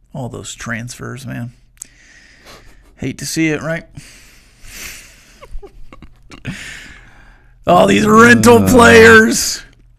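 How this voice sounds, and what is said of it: Impression of Jon Gruden. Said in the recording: “his John Gruden impersonation”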